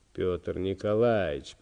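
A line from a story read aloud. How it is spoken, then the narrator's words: Moaning. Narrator (Russian): простонал товарищ прокурор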